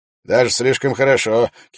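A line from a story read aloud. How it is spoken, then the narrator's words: Mocking shout. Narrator (Russian): выкрикнул насмешливо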